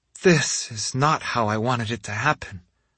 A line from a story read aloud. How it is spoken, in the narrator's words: she murmured